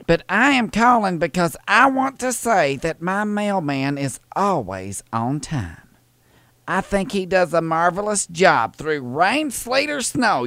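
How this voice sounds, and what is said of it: Southern American accent. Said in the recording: “accent ... It's a southern. It's a southern accent.”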